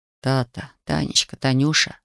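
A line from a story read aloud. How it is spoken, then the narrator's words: Whisper. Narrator (Russian): шептал он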